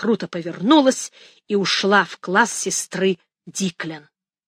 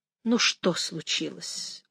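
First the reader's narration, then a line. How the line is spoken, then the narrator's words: Weary question. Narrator (Russian): устало спросила она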